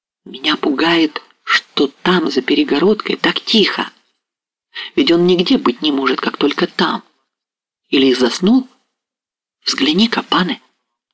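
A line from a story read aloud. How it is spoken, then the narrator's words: Barely audible whisper. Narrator (Russian): прошептала чуть слышно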